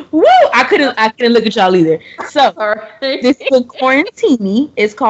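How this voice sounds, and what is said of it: Usual voice. Nothing is said of it.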